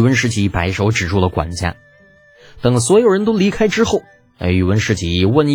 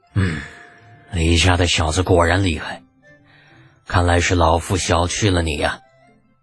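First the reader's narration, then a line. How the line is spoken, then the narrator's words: Long resigned sigh. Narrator (Chinese): 似乎领悟到了什么，发出一声长叹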